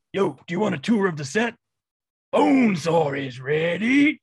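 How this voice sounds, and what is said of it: Poor Macho Man Randy Savage impression. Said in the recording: “your pathetic impression of Macho Man Randy Savage”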